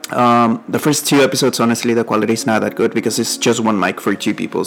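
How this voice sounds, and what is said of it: Mexican accent. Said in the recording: “my accent, my Mexican accent.”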